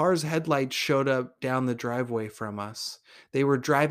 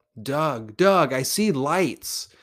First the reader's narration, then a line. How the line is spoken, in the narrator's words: Snake then screams out